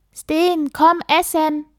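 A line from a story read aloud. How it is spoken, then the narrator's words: Mother calling up ladder. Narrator (German): rief Mama die Dachbodenleiter hoch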